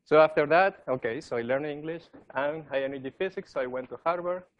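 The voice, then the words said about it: Italian-accented English. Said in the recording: “I don't know if you can sense my Italian accent”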